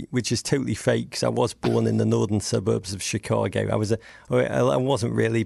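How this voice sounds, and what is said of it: British English accent, tight jaw. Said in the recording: “a mellifluous British accent ... I speak like I have my jaws wired together ... my English accent ... English people tell me I speak as if I've got my jaws wired together”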